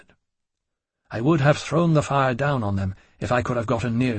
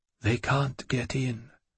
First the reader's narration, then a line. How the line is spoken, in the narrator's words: Gabrielle said in a low monotone